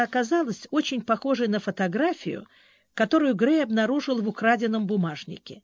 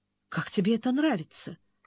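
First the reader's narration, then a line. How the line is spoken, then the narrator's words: Bewildered mutter. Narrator (Russian): растерянно пробормотала Бриана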